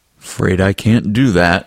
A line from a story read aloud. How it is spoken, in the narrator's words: he said